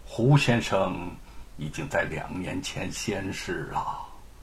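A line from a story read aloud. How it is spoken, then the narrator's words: Low sighing voice. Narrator (Chinese): 陶先生低声叹道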